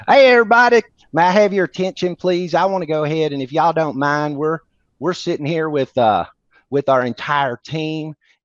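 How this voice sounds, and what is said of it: Put-on Southern US accent. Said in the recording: “you got to do your best Southern accent”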